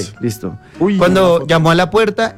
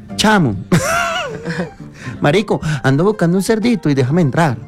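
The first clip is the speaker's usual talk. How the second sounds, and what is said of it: Put-on Venezuelan Spanish accent. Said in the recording (Spanish): “Venezolano ... Cierra con venezolano ... el venezolano”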